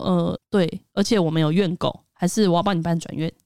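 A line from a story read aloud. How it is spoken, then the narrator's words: Cold. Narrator (Chinese): 他就冷冷的看着他说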